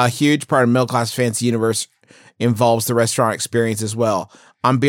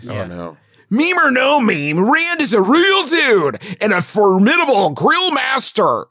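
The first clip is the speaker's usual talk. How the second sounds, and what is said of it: Guy Fieri impression. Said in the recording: “do my Guy Fieri voice ... That, your guy Fieri ... Scares the shit out of me.”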